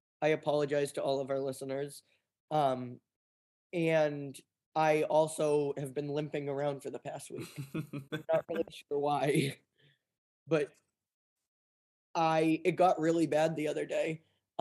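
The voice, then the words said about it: Hoarse, nearly lost voice. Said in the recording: “How's your voice, more importantly? ... Channel your lower voice. ... I lost my voice”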